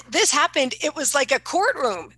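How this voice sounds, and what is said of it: Loud, hysterical yelling. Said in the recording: “I'm yelling. I'm so hysterical about this.”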